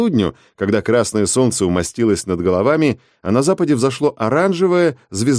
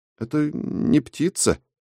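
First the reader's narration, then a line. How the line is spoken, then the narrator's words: Uncertain. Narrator (Russian): неуверенно сказал Умник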